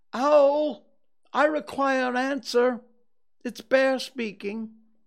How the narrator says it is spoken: he called out in a very loud voice

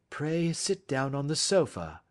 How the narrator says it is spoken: said Holmes gently

